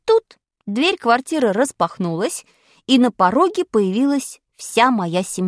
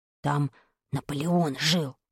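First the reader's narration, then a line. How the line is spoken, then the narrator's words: Quick whisper. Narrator (Russian): успел прошептать мне Вадик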